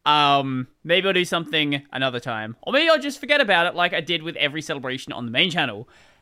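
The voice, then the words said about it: Australian accent. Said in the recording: “accents, there is now two Australians on the podcast”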